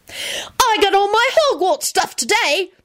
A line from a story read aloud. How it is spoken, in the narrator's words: Timothy yelled enthusiastically